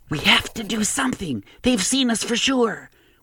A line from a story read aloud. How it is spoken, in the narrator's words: whispered Frog, voicing all that they feared